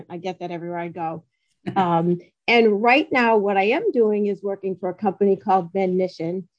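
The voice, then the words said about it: Massachusetts accent. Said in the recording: “I come from Massachusetts. If you hadn't told them, they would probably guess by my accent.”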